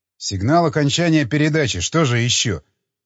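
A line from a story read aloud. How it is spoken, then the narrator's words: Irritated. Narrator (Russian): раздраженно отозвался я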